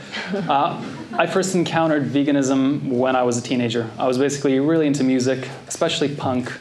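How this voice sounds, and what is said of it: Norwegian accent. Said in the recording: “I'm originally from Norway... That explains the accent.”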